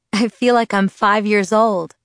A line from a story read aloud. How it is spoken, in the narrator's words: laughed